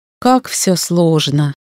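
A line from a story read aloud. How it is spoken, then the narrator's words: Mutter. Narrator (Russian): пробормотала я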